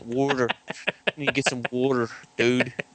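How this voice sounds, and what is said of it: Pennsylvania accent. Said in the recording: “Pennsylvania accent”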